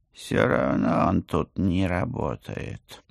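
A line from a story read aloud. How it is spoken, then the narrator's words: Gloomy. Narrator (Russian): мрачно добавил кот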